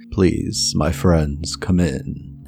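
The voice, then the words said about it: Deep character voice. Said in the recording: “You hear a deep voice come from inside.”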